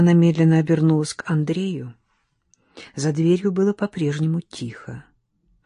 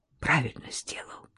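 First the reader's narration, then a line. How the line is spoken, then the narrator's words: Whispered. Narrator (Russian): прошептала она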